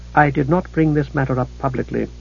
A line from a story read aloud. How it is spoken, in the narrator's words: the decider said, speaking softly